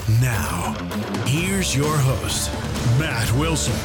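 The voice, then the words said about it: Big booming announcer voice. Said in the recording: “big announcer voice”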